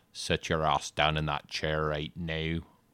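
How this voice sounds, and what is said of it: Put-on Irish accent. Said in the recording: “I'll do an Irish ... That's my Irish.”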